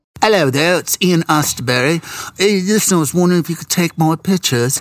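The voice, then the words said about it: Bad put-on English accent. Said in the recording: “This is a really bad English accent”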